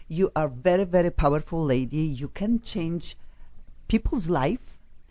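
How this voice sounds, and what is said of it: Speaks with a noticeable accent. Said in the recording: “clearly I'm the only one in this room without an accent. That must be quite apparent to your listeners.”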